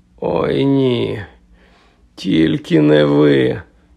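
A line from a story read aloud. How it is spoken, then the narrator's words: Moaning. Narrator (Ukrainian): простогнав Гаррі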